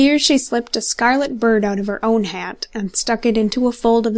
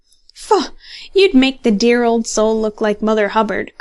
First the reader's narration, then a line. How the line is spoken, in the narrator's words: cried another